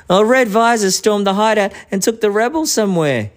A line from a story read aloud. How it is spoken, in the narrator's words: he cried